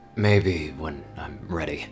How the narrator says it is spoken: he mumbled, feeling the warmth spread over his face

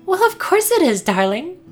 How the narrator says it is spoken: she chirped, her head held up proudly

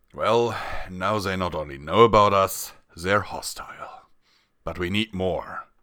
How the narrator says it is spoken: Ardis pondered, then he sighed and said

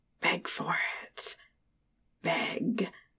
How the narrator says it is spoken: The face of the tree is near her ear, and we hear it whisper to her

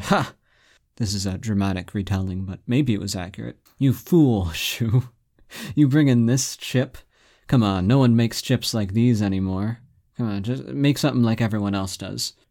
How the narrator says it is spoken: they laughed at him, and they said

